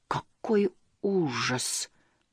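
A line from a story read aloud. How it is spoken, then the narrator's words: Slow. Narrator (Russian): медленно произнес Мумитроль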